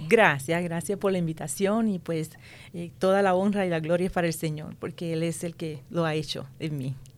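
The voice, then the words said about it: Puerto Rican Spanish accent. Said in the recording (Spanish): “ese acento fabuloso que tiene ... Yo soy puertorriqueña, ajá, de Puerto Rico”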